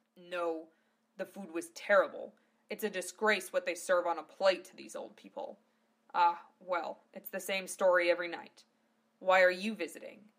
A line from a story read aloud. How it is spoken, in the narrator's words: asked gruffly